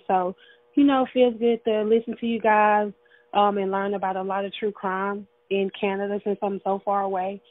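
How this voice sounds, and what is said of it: Pleasant, soothing regional accent. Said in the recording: “that accent is just heaven to me. ... I love those accents. ... your beautiful dulcet tones ... That accent is just perfection to me. ... It's so pleasant.”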